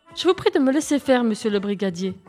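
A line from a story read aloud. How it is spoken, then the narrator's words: Curt declaration. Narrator (French): déclara-t-elle d'un ton sec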